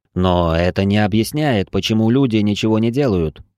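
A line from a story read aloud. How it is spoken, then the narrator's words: Grumbling. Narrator (Russian): проворчал я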